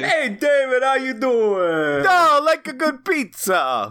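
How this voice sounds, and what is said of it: Put-on New York accent. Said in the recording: “Do your New York drag now ... Is that a New York accent? I just thought that's how people who like pizza talk.”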